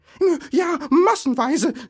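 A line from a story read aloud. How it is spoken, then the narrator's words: Shouting. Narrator (German): schrie Bilbo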